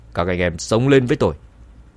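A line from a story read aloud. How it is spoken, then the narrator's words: Angry shout. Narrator (Vietnamese): Cao thủ dẫn đầu tức giận quát lớn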